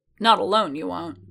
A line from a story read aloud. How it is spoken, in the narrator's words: Boba growled